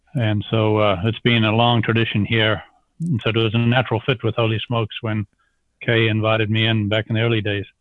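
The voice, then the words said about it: Slight South African accent. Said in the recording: “anyone that hears your voice can hear a slight bit of an accent ... I'm an accent without a country now after 43 years of having left South Africa”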